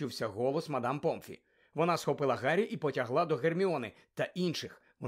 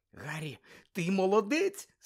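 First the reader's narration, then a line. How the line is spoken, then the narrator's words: Cry out. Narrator (Ukrainian): скрикнула Герміона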